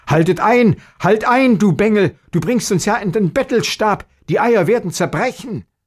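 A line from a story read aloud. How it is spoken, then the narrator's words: Father's frightened shout. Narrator (German): der Vater erschrocken rief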